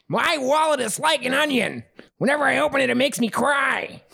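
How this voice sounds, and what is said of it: Imitates another person's voice. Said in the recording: “Gilbert Godfrey ... Just read the phrase as Gilbert Godfrey”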